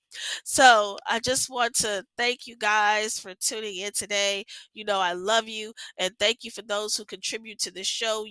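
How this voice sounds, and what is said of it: Voice sounds a little weird. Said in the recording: “my allergies are really acting up, and I know I sound a little bit weird ... Lord, I sound so weird.”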